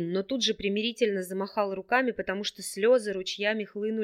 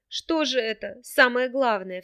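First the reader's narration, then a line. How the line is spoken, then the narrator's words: Sobbing. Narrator (Russian): всхлипнула Джейса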